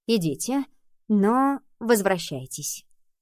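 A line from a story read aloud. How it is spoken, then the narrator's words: Calm reply. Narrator (Russian): она ответила мне спокойно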